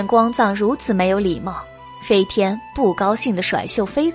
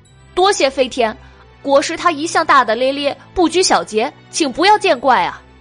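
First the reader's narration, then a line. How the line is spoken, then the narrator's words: Hurried, loud. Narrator (Chinese): 酸泥急忙大声的替光藏向飞天道谢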